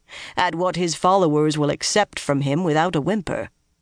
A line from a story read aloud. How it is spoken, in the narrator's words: he added dryly